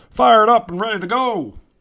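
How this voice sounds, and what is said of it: Imitates another person's voice. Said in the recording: “That was my Dusty Obama impression from 08.”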